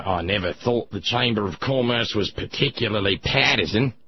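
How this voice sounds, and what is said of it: Bad imitation Australian accent. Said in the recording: “my bad, bad, bad Rupert Murdoch Australian accent”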